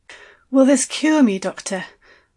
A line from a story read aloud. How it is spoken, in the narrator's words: I asked, breathlessly